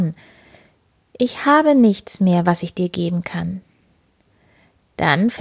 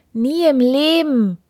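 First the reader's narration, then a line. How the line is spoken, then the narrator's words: Queen calling out. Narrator (German): rief die Königin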